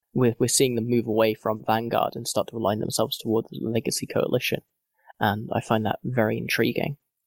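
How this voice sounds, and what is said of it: Strained, worn-out voice. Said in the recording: “my voice is just dying because I've been talking so much today”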